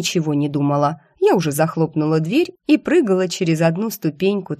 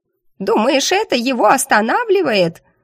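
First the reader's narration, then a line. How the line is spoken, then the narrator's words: Hysterical shriek. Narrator (Russian): истерически взвизгнула животина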